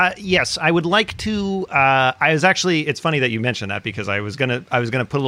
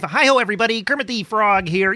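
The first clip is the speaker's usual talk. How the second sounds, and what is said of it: Kermit the Frog character voice. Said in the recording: “in your Kermit voice”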